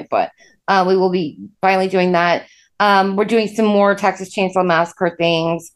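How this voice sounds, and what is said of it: Sick-sounding voice. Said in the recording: “This is allergy season for me, and I was very sick at the time. So you can hear it in my voice.”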